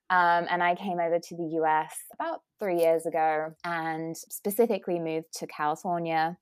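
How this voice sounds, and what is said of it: British accent. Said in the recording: “as you can tell from my accent, I'm ... British.”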